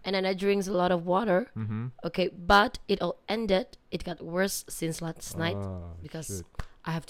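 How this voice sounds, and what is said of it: Hoarse, husky voice. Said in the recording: “I have a sore throat, so my voice sounded so sexy tonight”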